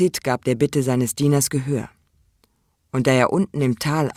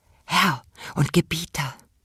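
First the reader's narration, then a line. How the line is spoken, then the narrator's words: Soft whisper. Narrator (German): flüsterte er leise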